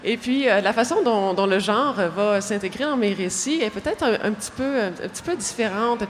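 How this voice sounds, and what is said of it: Québécois French accent. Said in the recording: “vous l'entendez à mon accent, alors je suis l'auteure québécoise”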